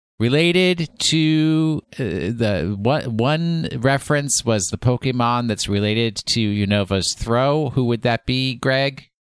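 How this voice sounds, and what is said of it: Speaker's own regional accent. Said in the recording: “people complain about my accent, which I really have little control over.”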